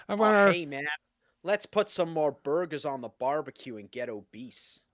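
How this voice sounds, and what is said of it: Bad put-on American accent. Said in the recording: “the American accent like you've done multiple times ... That's terrible ... That's supposed to be an American accent?”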